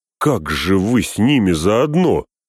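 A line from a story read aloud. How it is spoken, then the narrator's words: Angry question. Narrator (Russian): сердито спросил Сэм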